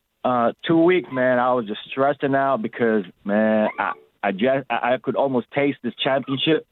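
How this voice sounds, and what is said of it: Sore, hoarse voice. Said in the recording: “my voice is really sore. It's really hoarse.”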